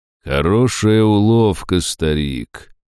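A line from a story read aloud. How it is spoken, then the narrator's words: Muffled, mocking. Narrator (Russian): проговорил гость глухо и насмешливо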